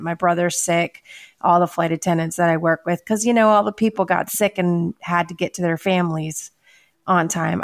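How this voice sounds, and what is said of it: Slightly nasal, congested voice. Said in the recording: “my voice is a little nasally right now”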